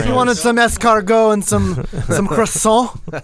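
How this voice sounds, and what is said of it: Bad put-on French accent. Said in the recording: “my bad French ... You're channeling your best Lumiere ... You think I could actually do a decent accent, but I cannot.”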